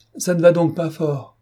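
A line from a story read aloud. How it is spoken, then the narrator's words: Shouted. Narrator (French): cria-t-il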